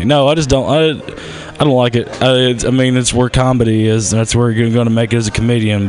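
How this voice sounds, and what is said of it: Strong Southern American accent. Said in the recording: “I, I talk different... your accent's so cute... sound like Forrest Gump had a stroke”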